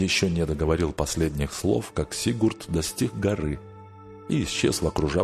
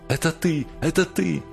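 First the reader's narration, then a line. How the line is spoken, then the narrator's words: Joyful exclamation. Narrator (Russian): Радостно воскликнула она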